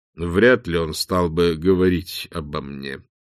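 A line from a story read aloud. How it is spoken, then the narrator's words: Slow. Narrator (Russian): медленно произнес Билл Двер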